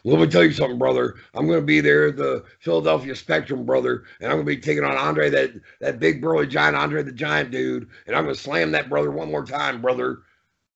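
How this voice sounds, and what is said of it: Hulk Hogan impression. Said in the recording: “That was a great Hogan impression”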